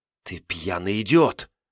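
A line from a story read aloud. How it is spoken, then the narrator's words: Hissed. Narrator (Russian): шипела за его спиной Ноэль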